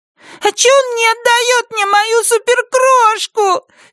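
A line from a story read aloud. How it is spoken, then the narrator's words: Shrill snapping, sobbing. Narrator (Russian): визгливо огрызается Глори и тоже раздражается рыданиями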